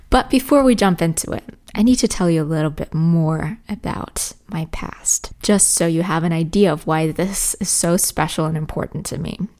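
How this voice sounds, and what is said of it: Somewhat Americanized English accent. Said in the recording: “my speech or accent or however you want to call it, is quite Americanized... I'm not saying I have the perfect American accent, I'm probably far from it... you can definitely hear a little bit of inspiration from the US”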